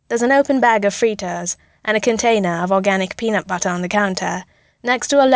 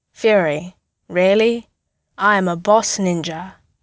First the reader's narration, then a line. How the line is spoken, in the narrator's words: Clint tells him solemnly